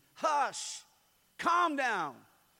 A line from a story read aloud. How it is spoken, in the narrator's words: Fully awake, he rebuked the storm, shouted to the sea